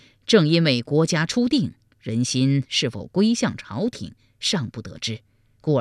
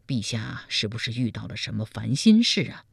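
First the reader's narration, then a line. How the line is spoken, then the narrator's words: Concerned question. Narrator (Chinese): 赵普关切地问道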